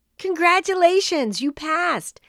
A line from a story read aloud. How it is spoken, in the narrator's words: Chloe shouted with joy